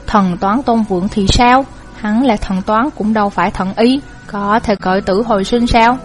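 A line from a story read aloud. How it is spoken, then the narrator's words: Bitter-laughing mutter. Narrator (Vietnamese): Bàn thái sư cười khổ, lẩm bẩm một câu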